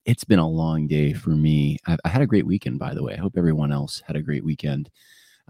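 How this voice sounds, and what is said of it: Low, quiet NPR-style voice. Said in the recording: “I have to speak a little low tonight ... why do you sound like you have an NPR voice? That's why I sound like I have an NPR voice”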